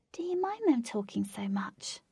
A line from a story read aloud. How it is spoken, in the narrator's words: whispered